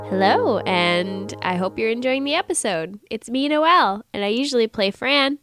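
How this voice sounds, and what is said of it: Sick, stuffy voice. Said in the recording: “as you can tell from my youthful and healthful state of voice. That's right, I have a cold. It's making me feel sick.”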